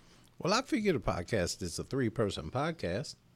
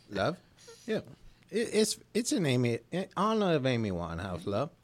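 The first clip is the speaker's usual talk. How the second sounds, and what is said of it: Put-on Cockney accent. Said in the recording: “Are you going to do your Cockney accent all during the... You're going to do your Cockney accent.”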